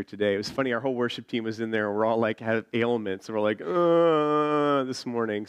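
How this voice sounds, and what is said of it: Deep, sick-sounding voice. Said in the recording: “I'm a bit sick, so it's my Barry White voice this morning of preaching ... a little deep voice”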